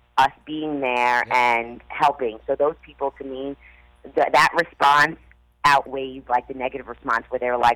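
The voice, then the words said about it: Raspy, tired-sounding voice. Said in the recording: “I'm sorry my voice is so raspy raspy... You're entitled to have a raspy voice”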